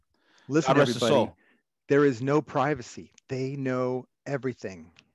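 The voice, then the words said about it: Imitates another person's voice. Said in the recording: “my John McAfee impersonation”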